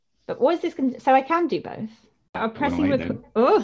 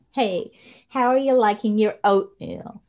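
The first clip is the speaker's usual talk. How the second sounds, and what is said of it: Put-on American accent, vocal fry. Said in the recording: “In American. Us to American accents. ... I'm going to do it all with vocal fry.”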